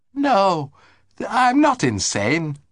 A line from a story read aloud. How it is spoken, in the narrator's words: retorted Lord Emsworth warmly